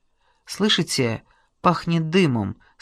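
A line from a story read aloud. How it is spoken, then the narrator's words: Plain question. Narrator (Russian): спросил Теткин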